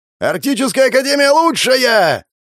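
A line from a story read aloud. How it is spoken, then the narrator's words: Yelling. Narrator (Russian): заорал на камеру Родион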